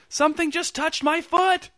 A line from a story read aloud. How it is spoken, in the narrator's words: a woman screamed